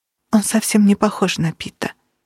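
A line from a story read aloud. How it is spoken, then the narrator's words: Quiet. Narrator (Russian): тихо сказала Кира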